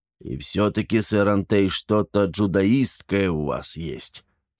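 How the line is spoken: Grumbling. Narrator (Russian): проворчал он

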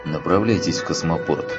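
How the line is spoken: Plain. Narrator (Russian): ответил тот

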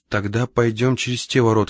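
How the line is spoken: Plain. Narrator (Russian): сказал Ивана

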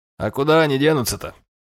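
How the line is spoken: Grumbling. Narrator (Russian): проворчал

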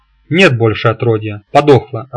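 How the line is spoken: Laughing. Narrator (Russian): рассмеялся я

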